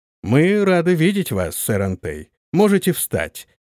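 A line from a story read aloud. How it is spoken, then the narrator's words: Deep commanding voice. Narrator (Russian): проговорил барон густым голосом, привыкшим повелевать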